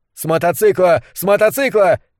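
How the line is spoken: Shouting agent. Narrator (Russian): кричал один из агентов в бронежилетах

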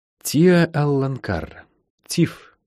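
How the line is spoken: Quiet. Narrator (Russian): негромко сказала Лайн

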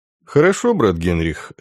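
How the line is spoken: Calm reply. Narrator (Russian): спокойно ответил Дан

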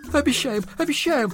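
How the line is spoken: Sobbing exclamations, several voices. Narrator (Russian): восклицают, рыдая, жена Ананси с сыновьями

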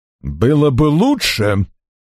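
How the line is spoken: Unusually menacing tone. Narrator (Russian): несвойственным ему угрожающим тоном проговорил Арчер

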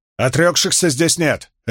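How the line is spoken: Barking. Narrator (Russian): рявкнула Авиенда

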